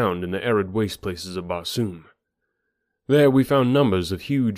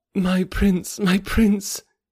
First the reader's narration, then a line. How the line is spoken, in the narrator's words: she cried in an ecstasy of happiness